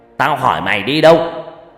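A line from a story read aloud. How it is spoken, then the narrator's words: Angry shout. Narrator (Vietnamese): Ông Long quát lên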